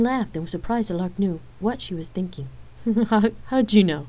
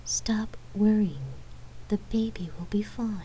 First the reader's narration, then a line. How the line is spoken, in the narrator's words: whispered